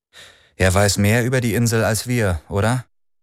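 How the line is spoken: Plain question. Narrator (German): fragte Lian

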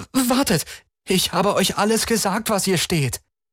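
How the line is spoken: Called out. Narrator (German): rief Chris

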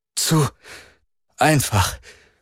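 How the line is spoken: Male panting. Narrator (German): keuchte er

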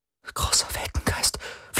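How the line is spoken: Whispered. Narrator (German): flüsterte

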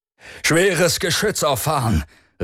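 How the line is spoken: Called out. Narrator (German): rief Branska

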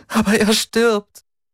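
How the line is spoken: Sobbing. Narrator (German): schluchzte

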